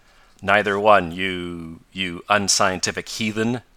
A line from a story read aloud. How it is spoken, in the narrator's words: answered Tom, with a laugh at Ned